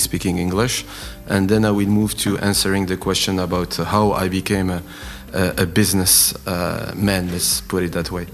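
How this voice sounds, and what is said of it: French-Arabic accented English. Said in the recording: “my accent in English is uh, is a loosey French uh, slash Arabic accent”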